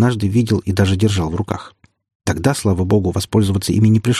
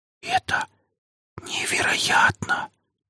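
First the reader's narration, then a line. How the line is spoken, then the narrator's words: Whispered. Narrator (Russian): прошептала Лина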